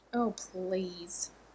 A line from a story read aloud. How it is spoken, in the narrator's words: Rodney scoffed